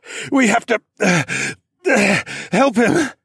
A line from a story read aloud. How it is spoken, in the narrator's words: I panted